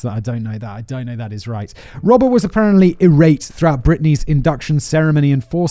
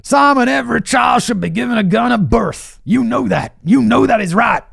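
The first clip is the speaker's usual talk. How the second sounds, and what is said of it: Put-on Southern American accent. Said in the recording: “my Southern American accent, which annoys everybody”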